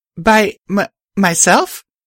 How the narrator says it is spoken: I stammered as I considered the weight of such an assignment

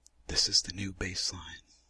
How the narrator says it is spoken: your boyfriend whispers across the table

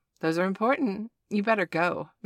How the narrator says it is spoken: Miss Jacobs said in a teasing tone

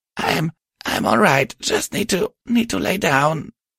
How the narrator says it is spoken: she wheezed

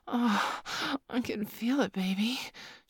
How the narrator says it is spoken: she moaned

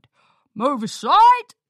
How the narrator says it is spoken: barked a security pony

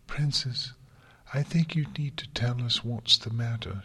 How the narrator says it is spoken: she said gently

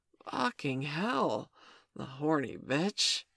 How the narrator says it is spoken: gasped

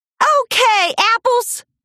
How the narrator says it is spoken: Applejack hollered with a smile

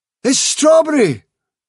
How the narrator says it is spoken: cried Dandelion

